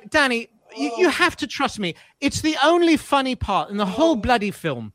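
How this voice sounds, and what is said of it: Weak imitation of British accent. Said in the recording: “I'm not doing a good British accent now”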